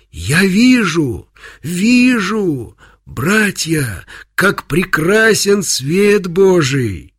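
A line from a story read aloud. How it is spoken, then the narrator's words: Joyful full-voiced shout. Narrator (Russian): прозрел слепой, и прокричал во весь голос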